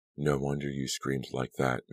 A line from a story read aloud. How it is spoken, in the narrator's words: Mary Beth said softly